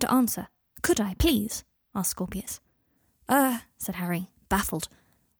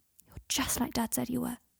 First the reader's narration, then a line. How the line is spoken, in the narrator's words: he whispered into his ear